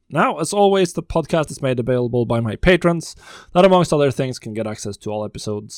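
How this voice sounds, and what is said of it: Slightly hoarse, sick-sounding voice. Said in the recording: “As you might be able to hear from my voice, I've also had a little bit of a cold. Still actually on the tail ends of that”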